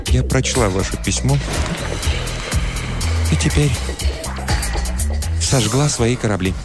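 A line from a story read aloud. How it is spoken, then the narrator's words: Quiet, near tears. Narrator (Russian): Я подумал, что она заплачет, но она сказала тихим голосом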